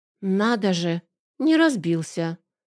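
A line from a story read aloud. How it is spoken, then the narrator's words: Confused mutter. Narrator (Russian): растерянно пробормотала Бет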